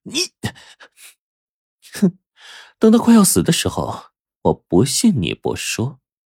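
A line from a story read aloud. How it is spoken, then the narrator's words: Through gritted teeth. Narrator (Chinese): 冰骷髅终于咬牙说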